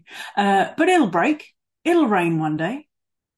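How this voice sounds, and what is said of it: Put-on Australian accent. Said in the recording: “I'll do an Australian accent for you.”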